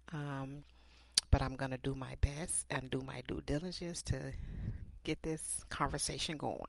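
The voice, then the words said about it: Scratchy voice. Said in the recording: “my voice is a little scratchy. I have some allergies going on here”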